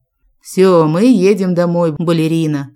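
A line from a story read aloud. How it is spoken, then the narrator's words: Deep overly enthusiastic voice. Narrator (Russian): пробасил с перебором энтузиазма Джек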